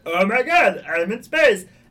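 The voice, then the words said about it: Impression of a cartoon character's voice. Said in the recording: “my impression... I like your really good Ezra. That was spot on. Yeah, perfect.”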